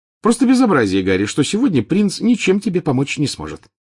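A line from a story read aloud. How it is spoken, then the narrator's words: Cheerful. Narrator (Russian): весело сказала она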